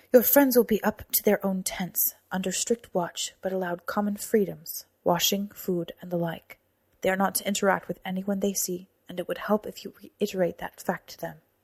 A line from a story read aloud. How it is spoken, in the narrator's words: Alivar said